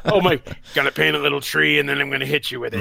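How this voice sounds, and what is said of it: Poor, angry imitation of another's voice. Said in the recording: “worst Bob Ross impression ... angry Bob Ross”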